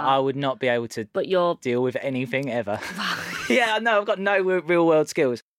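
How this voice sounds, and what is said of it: Essex English accent. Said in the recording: “I've got this accent and I'm playing on it a lot ... one of the negative things about Essex”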